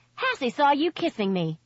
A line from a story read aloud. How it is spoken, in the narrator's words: she blurted out